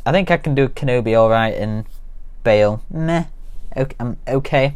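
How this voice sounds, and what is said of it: Usual voice. Nothing is said of it.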